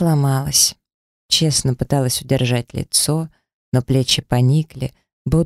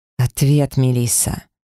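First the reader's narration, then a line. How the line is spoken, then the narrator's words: Menacing hiss through teeth. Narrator (Russian): прошипел он сквозь зубы, опасно нависая надо мной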